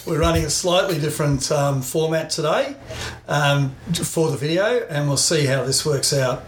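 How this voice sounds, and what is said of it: Australian accent. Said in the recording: “with an Aussie perspective and an Aussie accent.”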